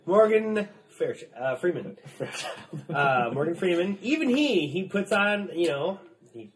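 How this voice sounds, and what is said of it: Usual voice. Nothing is said of it.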